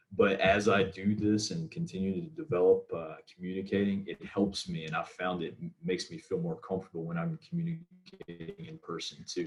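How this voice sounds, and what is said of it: Southern American accent. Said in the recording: “I have a strong Southern accent at times, and when I get excited, certain words are sound different.”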